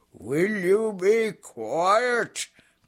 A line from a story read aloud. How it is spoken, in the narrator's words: growled Azaz angrily